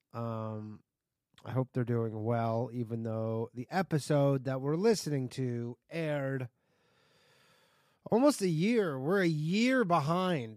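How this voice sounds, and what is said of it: Sick-sounding voice. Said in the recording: “I am sick. You can hear it in my voice.”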